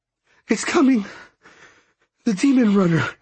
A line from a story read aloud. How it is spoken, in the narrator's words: she said, panting